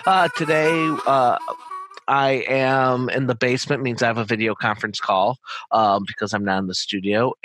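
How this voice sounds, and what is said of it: Raspy voice. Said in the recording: “please excuse my raspy voice”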